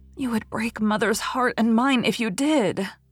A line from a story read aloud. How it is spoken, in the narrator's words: sobbed Rilla